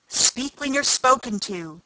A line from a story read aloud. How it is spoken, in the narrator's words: the Queen sharply interrupted her